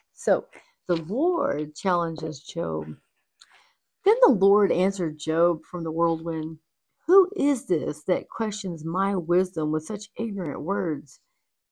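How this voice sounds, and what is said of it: Hoarse, fading voice. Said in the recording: “losing my voice. I'm getting like a little head cold.”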